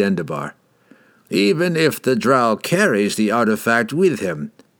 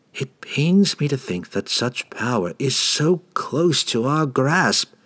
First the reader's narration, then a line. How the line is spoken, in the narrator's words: sighed the eager young mage